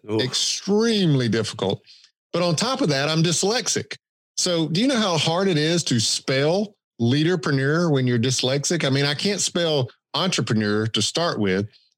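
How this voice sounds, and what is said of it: Thick Southern Georgia accent. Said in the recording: “I have this thick Southern accent ... with a Georgia accent”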